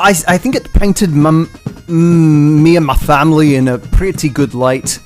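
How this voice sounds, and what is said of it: Put-on accent. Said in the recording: “I can't do this accent anymore!”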